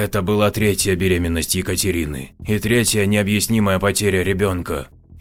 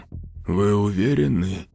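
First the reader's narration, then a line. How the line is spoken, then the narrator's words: Hoarse. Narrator (Russian): хрипло перешел обратно на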